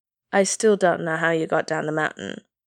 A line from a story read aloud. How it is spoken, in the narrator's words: Aizawa said flatly